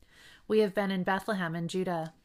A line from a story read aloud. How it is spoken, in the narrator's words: the man replied